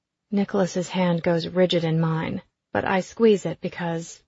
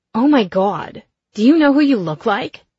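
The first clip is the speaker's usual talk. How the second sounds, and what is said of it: Gravelly Staten Island accented voice. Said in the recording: “a voice comes from behind us, kind of gravelly, probably a smoker, definitely from Staten Island.”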